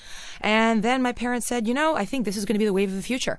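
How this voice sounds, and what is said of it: New York accent. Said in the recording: “this beautiful New York accent ... I'm a born and bred New Yorker”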